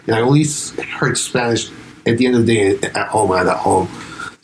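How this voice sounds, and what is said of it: Germanic-sounding accent in English. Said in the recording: “I think it sounds weird as fuck ... So I got to pick up on this Germanic accent. I never picked up the Spanish accent.”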